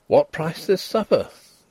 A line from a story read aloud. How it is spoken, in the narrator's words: Denry exclaimed